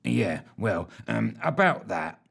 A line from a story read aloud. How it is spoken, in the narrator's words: mumbled Fitch, looking slightly abashed